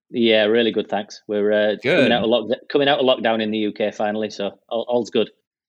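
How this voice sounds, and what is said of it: British accent. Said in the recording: “people can probably tell by your accent and also by the mention of the UK that you're not sitting here with me in California”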